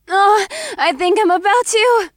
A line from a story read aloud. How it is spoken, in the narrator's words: gasped